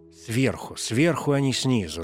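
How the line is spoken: Irritated correction. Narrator (Russian): раздраженно поправил меня Слепинарский

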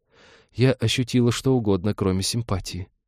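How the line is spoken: Sad admission. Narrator (Russian): грустно призналась Талика

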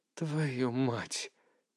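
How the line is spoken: Muttered curse. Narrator (Russian): пробормотал я, уже зная, кто это

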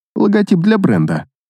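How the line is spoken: Snort. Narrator (Russian): хмыкнул я

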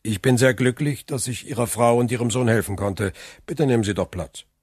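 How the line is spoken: Cold reply. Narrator (German): antwortete Monte Cristo ebenfalls kalt

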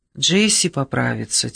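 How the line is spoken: Quiet. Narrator (Russian): тихо сказал он

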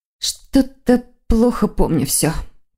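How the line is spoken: Muttering. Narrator (Russian): пробормотала она

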